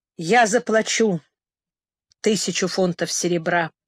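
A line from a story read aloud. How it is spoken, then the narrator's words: Dejected voice. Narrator (Russian): сказал упавшим голосом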